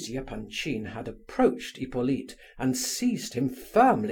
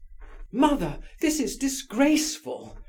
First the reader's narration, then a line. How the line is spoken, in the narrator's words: cried Aglaya